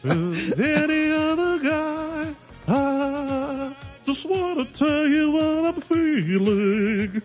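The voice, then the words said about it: Sung imitation of a pop singer. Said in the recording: “my Rick Astley impression”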